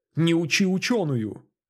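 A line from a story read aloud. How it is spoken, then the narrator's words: Angry snarl. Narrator (Russian): зло оскалилась она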